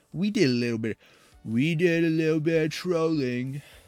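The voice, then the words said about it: Poor imitation of another person's voice. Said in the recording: “my horrible Trump impression”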